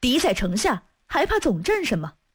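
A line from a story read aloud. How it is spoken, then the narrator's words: Stern shout. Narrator (Chinese): 副使王应称厉声喝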